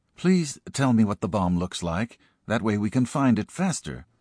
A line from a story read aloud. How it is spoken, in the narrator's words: said Helen